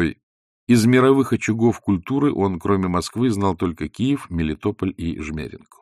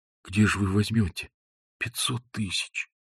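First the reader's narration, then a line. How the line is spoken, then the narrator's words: Quiet question. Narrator (Russian): тихо спросил Балаганов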